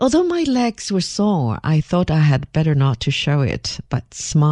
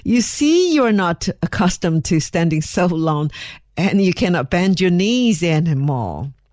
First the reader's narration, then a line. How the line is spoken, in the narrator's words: Her Majesty laughed very heartily at me and said